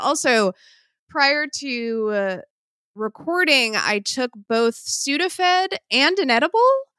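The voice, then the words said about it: Sick, congested-sounding voice. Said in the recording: “I am recovering from an illness, which I'm sure you can hear in my voice.”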